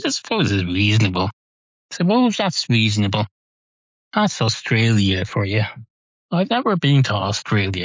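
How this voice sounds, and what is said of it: Irish accent. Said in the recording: “you probably just assume I'm in Ireland because of my accent”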